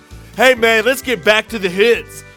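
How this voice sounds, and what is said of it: California surfer dude accent. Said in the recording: “Can you tell how our accents are slowly going to like California surfer dudes?”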